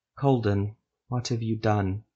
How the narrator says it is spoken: Ethramel asked softly

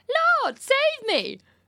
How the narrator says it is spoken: you cried out

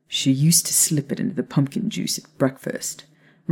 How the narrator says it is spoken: Remus said with a quiet chuckle

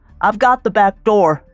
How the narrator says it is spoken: David yelled

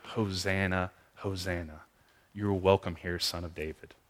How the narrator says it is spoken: might quietly say

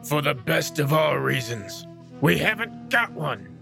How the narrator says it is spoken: growled the cowherd, who did not see why the rat should put his finger in the pie

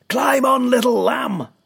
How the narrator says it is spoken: shouted

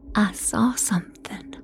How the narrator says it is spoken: I whispered, my fearful heartbeat throbbing inside my brain

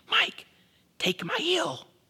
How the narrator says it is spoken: hissed to the younger of us

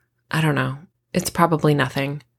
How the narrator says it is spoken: I sigh

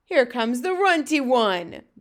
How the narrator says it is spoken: boomed the flesh lump eater

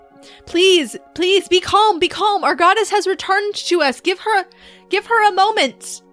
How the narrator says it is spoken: She shouts over the crowd

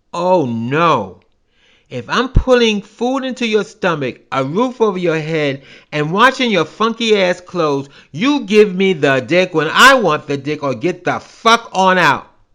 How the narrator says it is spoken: yelled

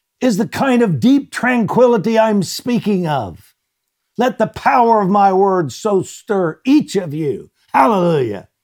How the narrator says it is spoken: shouted

